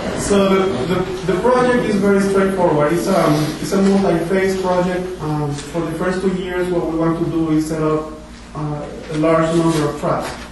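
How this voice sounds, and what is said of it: Speaks with a noticeable accent. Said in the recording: “I know that I have an accent ... I'm from a very, very deep south”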